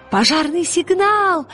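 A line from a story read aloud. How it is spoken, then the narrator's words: Shout. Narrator (Russian): крикнул Пантелеймон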